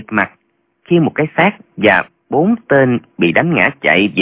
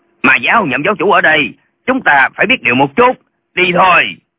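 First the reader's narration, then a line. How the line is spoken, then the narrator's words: Old man's shout. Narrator (Vietnamese): Lão vẫy tay quát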